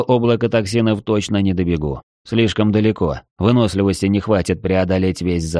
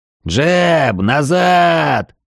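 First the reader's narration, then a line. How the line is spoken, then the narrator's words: Yelling. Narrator (Russian): заорал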